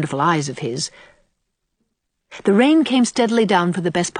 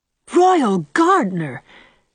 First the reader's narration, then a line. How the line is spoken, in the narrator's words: she exclaimed